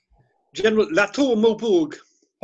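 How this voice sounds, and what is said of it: Exaggerated French accent. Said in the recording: “Could you say that again with a bit more French accent?... Oh, I'm there. I'm transported to the battlefields of Europe.”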